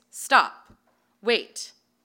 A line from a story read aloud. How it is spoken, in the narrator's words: he yelled in a deep, commanding voice